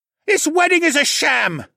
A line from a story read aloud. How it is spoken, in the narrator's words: a familiar voice screeched